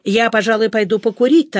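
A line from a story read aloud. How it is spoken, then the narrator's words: Hurried speech. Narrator (Russian): торопливо сказал Митя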